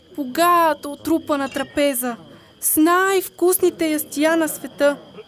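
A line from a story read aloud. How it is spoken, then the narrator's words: Shouting. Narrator (Bulgarian): извикал магарето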